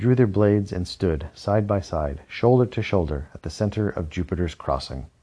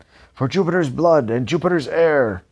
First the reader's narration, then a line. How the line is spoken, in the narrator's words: Uncle Wilfred cried